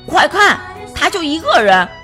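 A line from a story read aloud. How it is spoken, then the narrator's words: Loud boy's voice. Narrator (Chinese): 男孩子其中一个大声说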